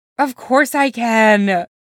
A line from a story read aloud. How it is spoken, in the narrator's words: Clint says, yawning hard enough that his jaw makes a disturbing creaky noise